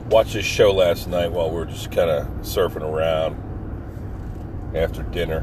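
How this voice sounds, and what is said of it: Slightly groggy voice. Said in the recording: “I sound a little groggy”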